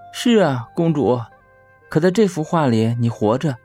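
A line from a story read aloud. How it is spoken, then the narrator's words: Admiring. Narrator (Chinese): 公主赞叹道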